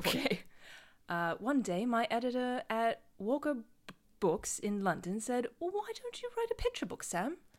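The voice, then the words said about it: Put-on British accent. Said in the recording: “You have to do this in a bad British, like a British accent... just do as good a one as you can”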